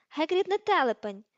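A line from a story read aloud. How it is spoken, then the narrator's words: Sharp exclamation. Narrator (Ukrainian): різко вигукнула Герміона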